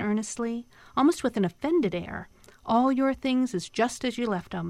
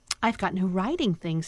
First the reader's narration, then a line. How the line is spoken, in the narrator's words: stammered the castaway, almost laughing